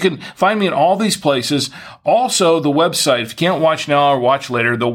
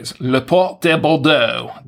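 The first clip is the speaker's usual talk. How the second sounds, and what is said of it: Fake French accent. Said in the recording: “That's the French accent, right? My fake French accent, such as it is.”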